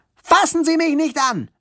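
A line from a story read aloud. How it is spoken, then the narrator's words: Shouting. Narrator (German): schrie Lilly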